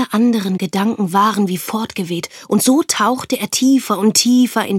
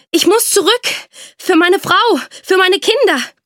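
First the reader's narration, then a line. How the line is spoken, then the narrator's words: Panting with exertion. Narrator (German): keuchte er und mühte sich weiter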